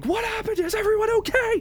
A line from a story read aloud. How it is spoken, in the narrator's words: yells from the armies, not too far away, yelling